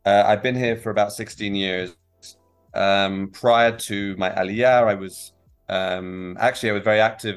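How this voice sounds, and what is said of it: English accent. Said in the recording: “originally from the from the UK, from England, as people can probably tell from my accent”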